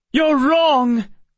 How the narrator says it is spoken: Emma shouted, no longer able to hold her tongue

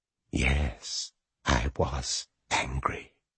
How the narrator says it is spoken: whispered the marten, and its voice was the voice of a woman, but it suddenly sounded old

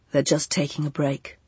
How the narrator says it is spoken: said Arlo in a flat voice

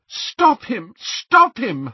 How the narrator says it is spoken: Hermione cried

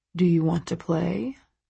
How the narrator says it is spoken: He says, his voice low

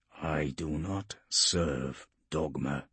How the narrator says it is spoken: he murmured to himself

